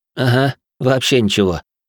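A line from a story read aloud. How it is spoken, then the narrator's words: Slightly nervous snort. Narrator (Russian): слегка нервно фыркнул я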